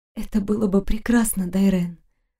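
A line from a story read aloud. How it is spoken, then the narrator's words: Tender, melting whisper. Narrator (Russian): прошептала я, тая от крошечных ласковых поцелуев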